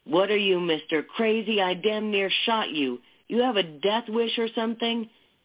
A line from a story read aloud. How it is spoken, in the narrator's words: a man say in a furious voice